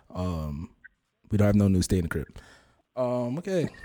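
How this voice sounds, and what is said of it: Put-on radio announcer voice. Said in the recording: “This is my radio voice.”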